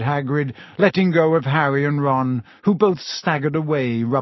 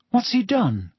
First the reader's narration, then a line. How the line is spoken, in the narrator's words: said Harry nervously